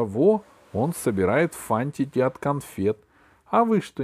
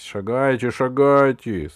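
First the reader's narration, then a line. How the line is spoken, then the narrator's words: Gloomy. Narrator (Russian): сказал мрачно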